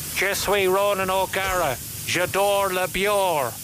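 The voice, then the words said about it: French with strong Cork accent, Ronan O'Gara. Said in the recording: “Learn French the Ronan O'Gara way ... speaking the world's sexiest language, French, with a strong Cork accent”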